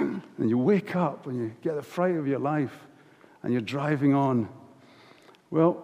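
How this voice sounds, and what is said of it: Usual voice. Nothing is said of it.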